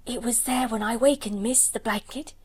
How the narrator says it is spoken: she whispered excitedly

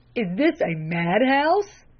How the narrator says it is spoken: gasped the lay reader

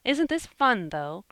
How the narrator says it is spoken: cried Jasper

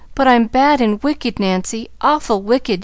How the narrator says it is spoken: she sobbed

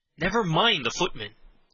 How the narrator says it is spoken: said Henry impatiently

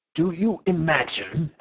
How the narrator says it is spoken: asked the professor furiously

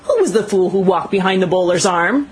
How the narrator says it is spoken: he yelled appealingly to space

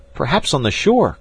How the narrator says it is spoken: cried Jack

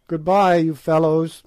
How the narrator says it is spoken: he said

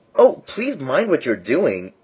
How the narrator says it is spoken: cried Alex, in agony of terror

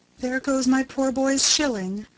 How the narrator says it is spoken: she said to herself sadly

